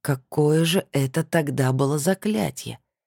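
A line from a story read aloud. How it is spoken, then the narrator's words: Drawn-out. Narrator (Russian): протянул Денис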